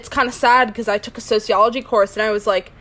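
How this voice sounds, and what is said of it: American accent. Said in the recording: “We live in America, if you couldn't tell by our accents”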